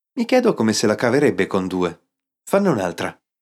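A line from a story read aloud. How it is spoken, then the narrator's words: Plain. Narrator (Italian): chiese Guy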